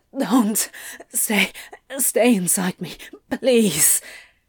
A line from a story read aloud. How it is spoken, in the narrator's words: Crowley was still touching himself, and when Aziraphale moved to pull away, he gasped